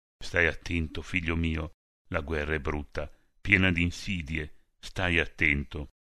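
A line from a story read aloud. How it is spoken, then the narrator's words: Sad anxious mother's whisper. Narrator (Italian): la mamma, col cuore gonfio di tristezza e di presagi non lieti, sicuramente lo aveva baciato sussurrando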